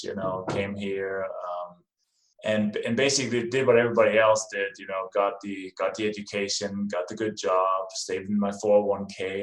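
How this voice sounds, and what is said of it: Danish accent. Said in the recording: “as you can probably hear from my name and my accent, I wasn't born in this country. I came from Denmark.”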